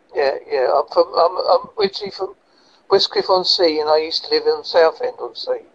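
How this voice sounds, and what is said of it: Strong Essex English accent. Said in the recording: “Originally, I'm from Essex ... That's why I got a strong accent”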